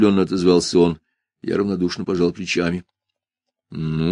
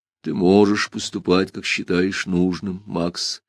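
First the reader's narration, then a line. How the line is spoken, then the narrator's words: Sad. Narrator (Russian): печально сказал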